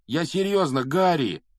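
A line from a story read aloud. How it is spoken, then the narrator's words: Pleading. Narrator (Russian): взмолился Рон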